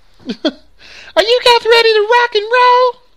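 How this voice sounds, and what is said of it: Imitates another person's voice. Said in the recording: “good enough impersonation”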